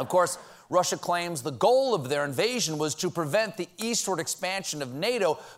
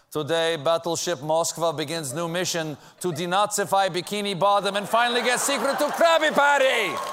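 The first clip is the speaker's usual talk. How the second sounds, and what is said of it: Put-on Russian accent drifting Italian. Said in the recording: “if I did the accent right. ... I have a really drifting Russian accent. It gets, a, uh, it gets Italian very quickly.”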